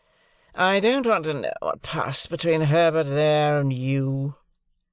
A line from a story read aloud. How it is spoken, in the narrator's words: growled Drummle